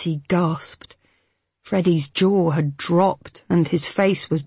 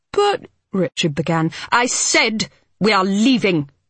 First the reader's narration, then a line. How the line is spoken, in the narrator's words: Mitzi barked